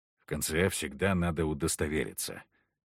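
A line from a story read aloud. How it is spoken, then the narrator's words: Quiet. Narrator (Russian): тихо сказал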